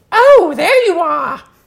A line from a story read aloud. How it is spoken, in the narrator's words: It exclaimed